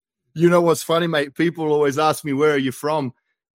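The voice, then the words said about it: Australian accent. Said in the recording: “you can tell by your Ohioan accent”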